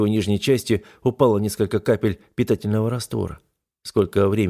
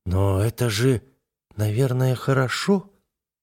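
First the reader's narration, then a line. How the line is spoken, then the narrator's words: Uncertain girl's question. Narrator (Russian): неуверенно спросила девушка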